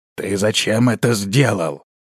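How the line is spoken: Menacing older man's question. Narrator (Russian): грозно спросил пожилой

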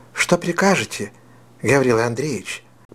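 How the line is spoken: Quiet voice. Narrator (Russian): проговорила она тихим голосом

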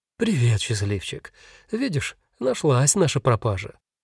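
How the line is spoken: Smiling, bewildered. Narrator (Russian): Улыбнулась, растерянно развела руками, сказала

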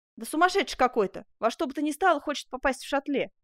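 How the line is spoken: Plain. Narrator (Russian): ответил сторож

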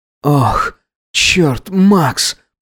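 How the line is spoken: Trembling groan. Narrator (Russian): простонал Гидеон, дрожа

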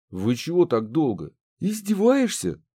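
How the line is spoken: Breathless exclamation. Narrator (Russian): воскликнула запыхавшаяся Банши

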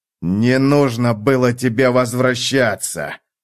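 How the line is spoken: Man's growl. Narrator (Russian): прорычал мужчина

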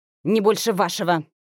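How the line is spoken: Sharp. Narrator (Russian): резко ответила графиня

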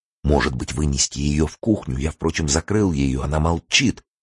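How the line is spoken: Anxious whisper. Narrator (Russian): тревожно зашептал Елене Лариосик

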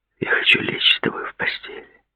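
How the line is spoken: Whispered. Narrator (Russian): прошептал он

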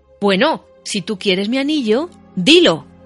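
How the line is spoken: Shout. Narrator (Spanish): gritó Bilbo

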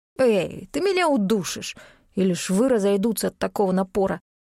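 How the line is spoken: Grumbling young man. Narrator (Russian): Парень бурчал

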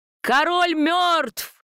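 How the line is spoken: Sudden loud yell. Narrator (Russian): завопил кто-то так, что мы от неожиданности подпрыгнули

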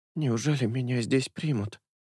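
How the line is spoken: Distrustful whisper, beggar woman. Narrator (Russian): прошептала нищенка, с недоверием

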